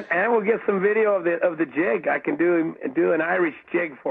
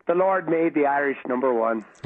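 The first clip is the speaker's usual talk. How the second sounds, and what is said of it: Irish brogue. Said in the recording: “spoke with a bit of a brogue.”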